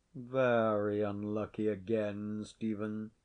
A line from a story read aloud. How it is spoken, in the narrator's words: said Sir John, without altering his voice a single note